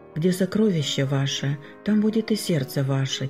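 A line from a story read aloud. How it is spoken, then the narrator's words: Quiet. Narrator (Russian): тихо ответила супруга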